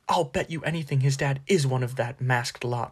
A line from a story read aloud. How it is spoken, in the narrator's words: said Ron hotly